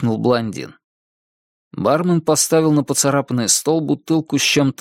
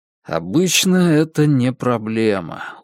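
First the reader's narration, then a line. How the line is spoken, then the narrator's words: Tired. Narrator (Russian): устало сказал я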